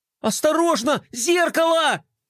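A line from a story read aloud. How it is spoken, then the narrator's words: Yelling. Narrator (Russian): завопил Флай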